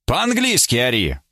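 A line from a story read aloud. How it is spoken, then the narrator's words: Fairly loud call. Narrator (Russian): он позвал жену довольно громко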